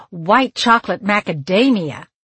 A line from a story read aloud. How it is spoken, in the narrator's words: Leah exclaimed